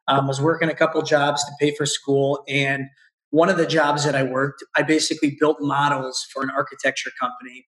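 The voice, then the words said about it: Hoarse, partly lost, squeaky voice. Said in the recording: “My voice is still half gone from the book launch. So if I squeak like I'm going through puberty”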